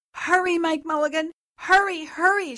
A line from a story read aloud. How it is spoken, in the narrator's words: shouted the little boy